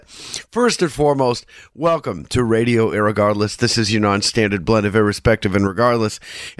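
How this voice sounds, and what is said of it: Sick, under-the-weather voice. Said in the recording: “I'm feeling a little under the weather. You can hear it in my voice. ... your sickly host”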